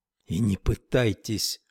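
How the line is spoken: Whisper. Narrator (Russian): шепнула Тесла

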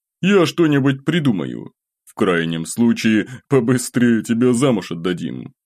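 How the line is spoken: Chuckling. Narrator (Russian): добавил, хохотнув

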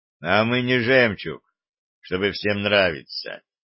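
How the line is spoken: Gloomy reply. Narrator (Russian): мрачно ответил ведун

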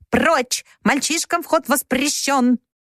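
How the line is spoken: Squawking parrot shout. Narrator (Russian): Ее попугай выкрикнул

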